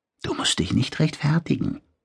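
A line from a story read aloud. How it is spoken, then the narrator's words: Whispering. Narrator (German): flüsterte Oona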